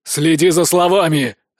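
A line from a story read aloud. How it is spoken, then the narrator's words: Gruff bark, not scary. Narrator (Russian): рявкнул папаша, но как-то уже не страшно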